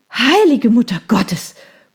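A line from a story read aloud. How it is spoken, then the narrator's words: Gasped. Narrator (German): keuchte ich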